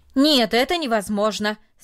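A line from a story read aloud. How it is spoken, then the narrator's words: Loud and firm. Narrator (Russian): сказал, наконец, громко и твердо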